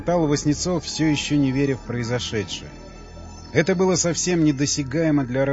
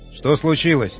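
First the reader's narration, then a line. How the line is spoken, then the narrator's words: Shouted. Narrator (Russian): крикнул Яхонтов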